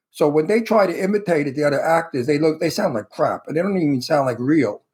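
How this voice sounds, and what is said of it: Authentic Brooklyn accent. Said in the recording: “I could talk like I come from Brooklyn because I really do come from Brooklyn ... So my accent is a real accent. Right now, this is how they talk in Brooklyn ... my Brooklyn accent ... It's authentic.”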